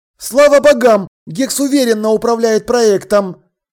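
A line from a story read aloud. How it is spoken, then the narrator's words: Exclamation. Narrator (Russian): воскликнул подошедший Думинг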